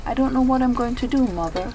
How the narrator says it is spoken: Aubrey said

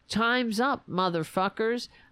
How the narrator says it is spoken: the so-called QAnon shaman, who called out

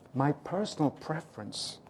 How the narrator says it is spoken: Nordsletten half whispered

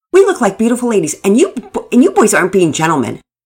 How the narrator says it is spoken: Nora responded sharply

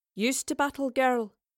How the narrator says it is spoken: Beric had asked

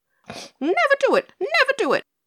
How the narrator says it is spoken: squealed Pigasus

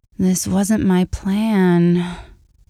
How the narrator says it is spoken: objected, but the end of the word was drawn out into a moan

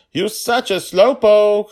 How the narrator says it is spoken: shouted down

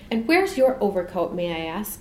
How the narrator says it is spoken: she demanded, looking crossly but without surprise

